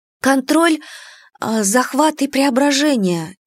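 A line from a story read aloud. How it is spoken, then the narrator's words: Uncertain. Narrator (Russian): неуверенно произнесла я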